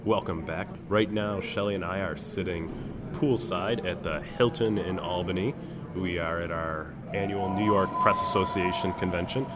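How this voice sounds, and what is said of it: Rough, under-the-weather voice. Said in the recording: “I apologize for my voice today. I'm getting over a brief cold”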